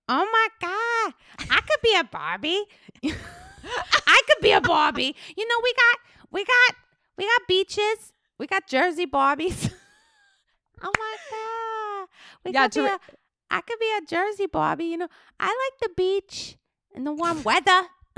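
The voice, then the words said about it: Imitates another person's voice, Jersey accent. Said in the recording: “I like Barbie try to jersey. Do your impression as Teresa”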